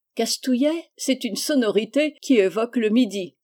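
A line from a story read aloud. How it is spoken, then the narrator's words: Exclaimed. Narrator (French): s'exclama Marie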